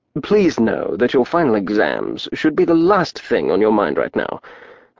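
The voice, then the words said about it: Old-fashioned British accent. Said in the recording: “He had a fusty British accent.”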